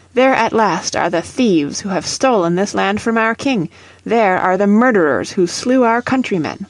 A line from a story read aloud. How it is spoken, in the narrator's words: cried Gorges